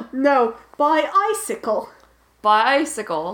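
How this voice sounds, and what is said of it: Put-on British accent. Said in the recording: “I'm going to say it with a British accent because otherwise pi- punchline doesn't work ... I just wanted to do a British boy, accent, boy, which is very boy, good.”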